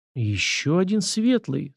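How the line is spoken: Thoughtful mutter. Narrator (Russian): задумчиво пробормотала Нечаева

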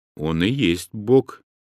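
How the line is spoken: Plain. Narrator (Russian): ответил я

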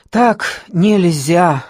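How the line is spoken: Breathed out. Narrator (Russian): выдохнула, наконец, Маша

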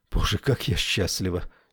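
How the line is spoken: Faint whisper. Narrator (Russian): чуть слышно шепнула я

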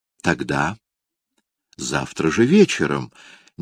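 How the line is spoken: Tender suggestion. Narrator (Russian): нежно предложила она

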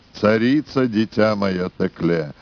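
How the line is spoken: Muffled repetition. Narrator (Russian): глухо повторила Русудан

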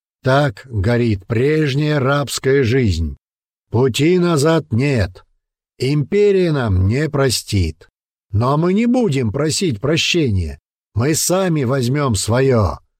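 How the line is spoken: Shouting. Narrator (Russian): закричал Коска по прозвищу Череп

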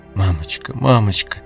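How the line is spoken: Sobbing repetition. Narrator (Russian): Марьяна всхлипывая и повторяя

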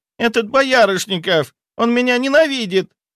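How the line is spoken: Shrill shriek. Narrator (Russian): взвизгнула она

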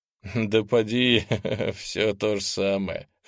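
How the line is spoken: Wry snort. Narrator (Russian): хмыкнул землянин

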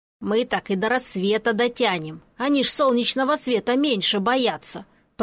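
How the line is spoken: Grumbled. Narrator (Russian): пробурчал и Пончик

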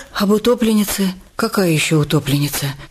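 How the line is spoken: Frightened question. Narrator (Russian): Испуганно переспросила Паклина

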